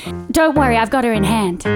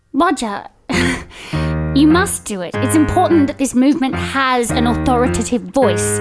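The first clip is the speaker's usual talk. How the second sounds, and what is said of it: Put-on weird American accent. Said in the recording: “I pick up on your weird American accent ... but I am Australian from Melbourne”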